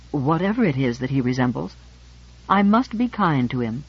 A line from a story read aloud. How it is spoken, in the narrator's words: to end lamely, but warmly